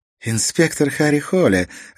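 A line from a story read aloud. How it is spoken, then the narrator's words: Ringing amused laugh. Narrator (Russian): ответила она, звонко рассмеявшись, как будто он рассказал смешной анекдот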